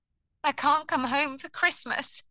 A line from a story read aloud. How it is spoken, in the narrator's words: sobbed